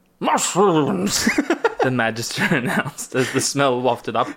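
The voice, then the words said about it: Comic character voice. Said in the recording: “I should do my Illyrio voice. ... Is Illyrio Ronald Reagan? ... I was doing Boss Nass from The Phantom Menace.”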